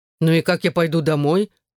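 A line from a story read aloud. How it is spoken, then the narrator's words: Angry question. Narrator (Russian): сердито спросил Шон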